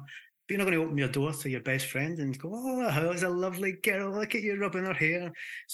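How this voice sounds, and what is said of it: Scottish accent, speaking fast. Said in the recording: “I'm going fast here, and I need to watch the Scottish accent. People start to not be able to understand me when I speak too fast.”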